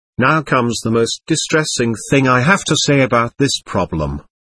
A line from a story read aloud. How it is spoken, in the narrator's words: Akok said in a sad voice